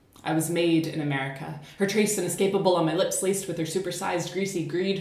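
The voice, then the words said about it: Generic American accent. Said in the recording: “This is the generic American accent”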